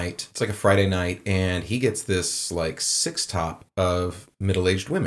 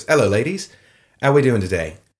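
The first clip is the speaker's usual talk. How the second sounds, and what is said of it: Bad put-on British accent. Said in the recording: “I'm doing a bad British accent right now”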